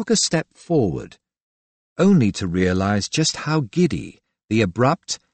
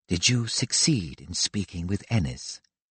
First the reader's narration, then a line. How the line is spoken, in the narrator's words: She kept her voice low, the husky tones